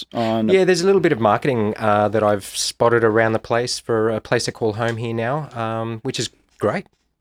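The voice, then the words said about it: Australian accent. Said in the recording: “I hear the New Zealand accent. ... No, definitely Australian.”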